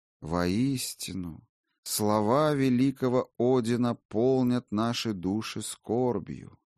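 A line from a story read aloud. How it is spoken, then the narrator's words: Slow, solemn. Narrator (Russian): медленно проговорил Кордвейн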